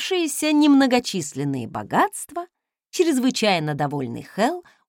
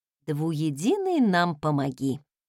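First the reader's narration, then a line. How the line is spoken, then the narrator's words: Unexpected mutter under breath. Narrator (Russian): Сама от себя не ожидая, пробормотала я себе под нос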